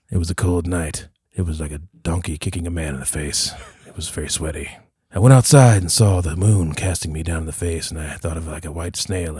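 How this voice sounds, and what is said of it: Noir Max Payne narrator impression. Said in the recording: “trying to do a Max Payne impression ... This movie felt very noir ... This VO like monologue”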